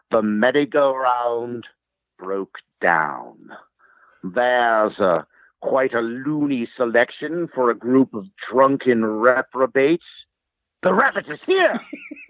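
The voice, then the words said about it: Christopher Lloyd as Judge Doom impression. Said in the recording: “It's Christopher Lloyd as Judge Doom. And I'll let me try. I used to be able to do a pretty good impression of him. It's been a while, though. It might not be so good.”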